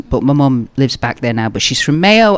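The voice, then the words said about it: Slight Manchester accent. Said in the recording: “I was born in Manchester. That's why I have a bit of an accent.”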